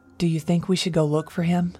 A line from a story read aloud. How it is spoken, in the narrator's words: Angel asked